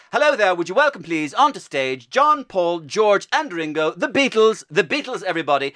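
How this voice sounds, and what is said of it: Irish accent mixed with received pronunciation. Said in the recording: “he's trying to ape David Frost ... the Irish accent is there, and there it is, our received pronunciation. But there's a little bit of British there as well.”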